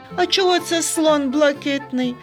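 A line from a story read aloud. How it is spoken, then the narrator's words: Laughing. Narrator (Ukrainian): засміявся Сергійко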